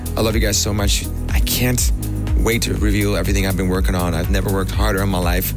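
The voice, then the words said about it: Slightly cracked, tired-sounding voice. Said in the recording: “You can actually hear it in my voice. I'm a little cracked up. No sleep”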